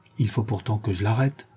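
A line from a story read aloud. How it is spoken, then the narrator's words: Murmured. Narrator (French): murmurai-je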